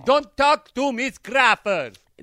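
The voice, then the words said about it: Very bad put-on accent. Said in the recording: “That's the worst accent I've ever heard. ... it just sounded like Mama Sita. ... No, it sounded like, Lucy, I'm home.”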